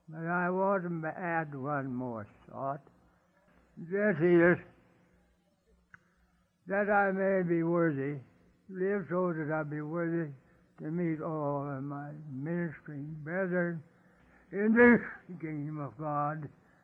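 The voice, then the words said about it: Weak, failing voice. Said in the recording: “my voice is giving out and I have to cough”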